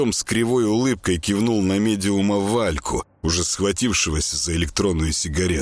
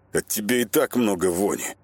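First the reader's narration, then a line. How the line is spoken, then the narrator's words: Muttered through clenched teeth. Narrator (Russian): процедил сквозь зубы шаман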